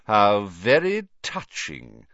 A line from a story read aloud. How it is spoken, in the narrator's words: sneered Snape